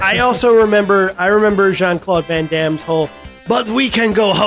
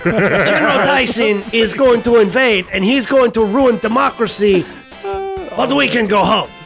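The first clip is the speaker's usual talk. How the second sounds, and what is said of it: Exaggerated put-on French accent. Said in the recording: “a totally crazy French accent ... French accent”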